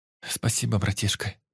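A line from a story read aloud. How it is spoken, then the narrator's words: Hot breathy whisper. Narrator (Russian): только и прошептала она, жарко дыша мне в ухо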